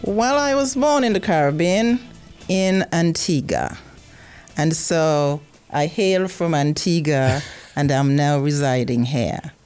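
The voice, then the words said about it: Antiguan Caribbean accent. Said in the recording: “You have a wonderful accent ... Antigua accent, or an Antiguan accent, is a beautiful accent”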